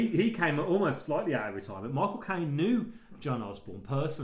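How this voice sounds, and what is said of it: Usual voice. Nothing is said of it.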